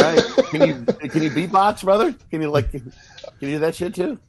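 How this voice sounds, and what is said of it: Usual voice. Nothing is said of it.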